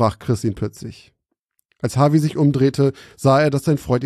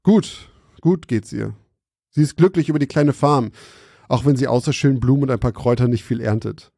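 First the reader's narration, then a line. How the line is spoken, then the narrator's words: Laughing. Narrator (German): lachte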